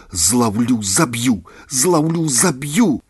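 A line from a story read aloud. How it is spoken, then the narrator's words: Crying while speaking. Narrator (Belarusian): Воўка плакаў і гаварыў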